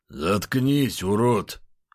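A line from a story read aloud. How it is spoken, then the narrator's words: Growling. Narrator (Russian): кто-то прорычал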